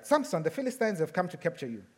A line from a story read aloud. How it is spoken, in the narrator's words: she cried out